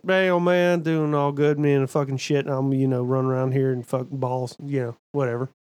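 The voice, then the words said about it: Mumbling Boomhauer-style Southern drawl. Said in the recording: “The other is fucking Boomhauer”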